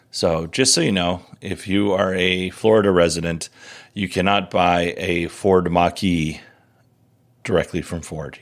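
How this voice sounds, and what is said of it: Hoarse, strained voice. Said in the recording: “I am losing my voice here.”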